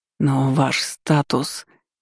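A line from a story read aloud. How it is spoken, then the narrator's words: Hoarse wheeze. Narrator (Russian): просипела Ванда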